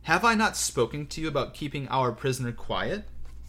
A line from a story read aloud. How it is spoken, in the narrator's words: said Voldemort with no change in his quiet, thoughtful tone